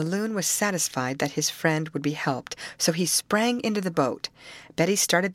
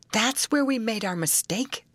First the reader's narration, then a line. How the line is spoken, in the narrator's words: exclaimed Molly